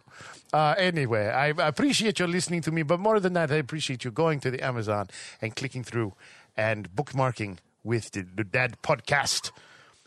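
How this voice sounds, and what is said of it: Put-on accent. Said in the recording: “I forgot you're supposed to do an accent. Keep going.”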